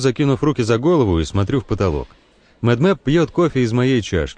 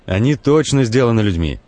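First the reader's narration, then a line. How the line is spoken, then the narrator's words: Irritated reply. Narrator (Russian): раздраженно отвечает Медмеп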